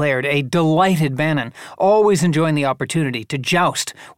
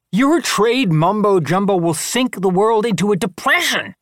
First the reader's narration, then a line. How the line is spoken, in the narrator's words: thundered Summers